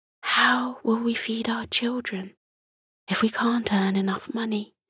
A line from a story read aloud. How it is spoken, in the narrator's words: Martha whispered to Morty